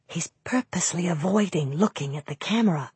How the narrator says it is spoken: I whispered to Raleigh

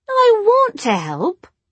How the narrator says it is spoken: Jessie said sulkily

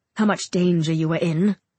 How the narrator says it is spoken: He snaps

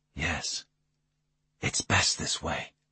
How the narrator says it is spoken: I whispered

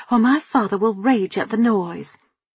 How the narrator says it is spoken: Nancy snapped at Sally

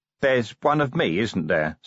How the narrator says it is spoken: said Vimes grimly

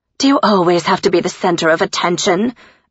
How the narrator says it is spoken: Elise snapped

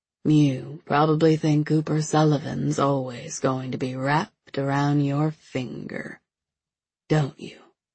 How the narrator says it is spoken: she asked

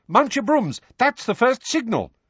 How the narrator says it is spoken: said Lupin sharply

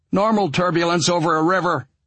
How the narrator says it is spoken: he shouted

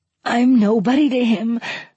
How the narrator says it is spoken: wheezed out

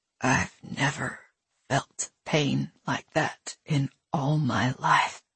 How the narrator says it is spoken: he said so softly that she almost couldn't hear it

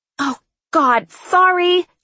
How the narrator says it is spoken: she yelled

